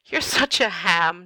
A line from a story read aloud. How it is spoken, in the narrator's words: Niall chuckles